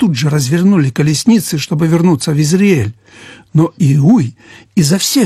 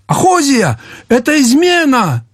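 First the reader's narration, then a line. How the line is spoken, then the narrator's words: Shout. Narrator (Russian): закричал Иорам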